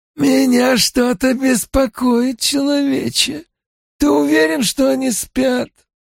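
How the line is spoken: Creaky voice. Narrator (Russian): Другой проскрипел

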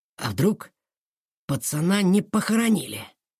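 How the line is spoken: Whispered. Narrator (Russian): прошептал Федя

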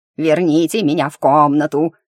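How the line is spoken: Wailing from behind. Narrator (Russian): завопили за моей спиной

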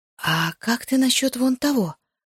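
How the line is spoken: Whisper. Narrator (Russian): прошептала я Исмарису

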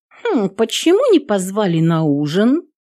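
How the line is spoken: Offended tone. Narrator (Russian): обиженно сказала подошедшая Кассия

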